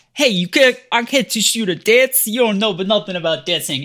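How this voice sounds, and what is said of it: Exaggerated New York accent. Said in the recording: “he does absolutely slip in and out of a New York accent”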